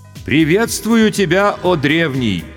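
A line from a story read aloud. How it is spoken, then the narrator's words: Respectful and loud. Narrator (Russian): почтительно и громко произнес старший майор госбезопасности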